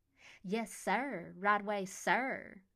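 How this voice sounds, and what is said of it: Bad mocking southern accent. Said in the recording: “in a terrible imitation of a southern accent.”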